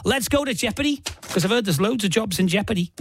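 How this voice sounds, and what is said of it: Put-on accent. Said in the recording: “With apologies for the accent”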